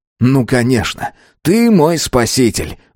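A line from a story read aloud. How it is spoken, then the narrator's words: Exclaimed. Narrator (Russian): воскликнул Байрон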